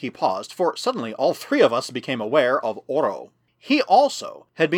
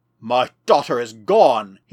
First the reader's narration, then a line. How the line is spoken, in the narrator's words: cried